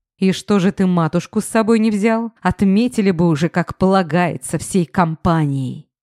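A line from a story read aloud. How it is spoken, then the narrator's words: Hissing. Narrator (Russian): зашипела я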